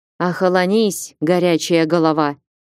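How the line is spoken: Pleased snort. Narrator (Russian): фыркнул Ольг довольно

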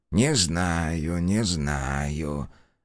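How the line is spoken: Muttering. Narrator (Russian): бормотал он

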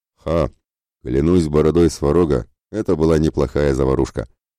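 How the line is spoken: Pleased deep bass. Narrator (Russian): пробасил довольный Ратибор

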